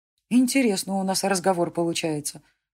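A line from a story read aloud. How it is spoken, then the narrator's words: Young woman's anxious mutter. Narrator (Russian): пробормотала девушка, отчаянно размышляя, что делать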